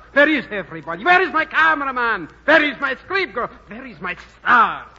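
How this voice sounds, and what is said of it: Shouting, suave continental-accented voice. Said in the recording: “In his suave, continental manner ... How can I hear myself shout?”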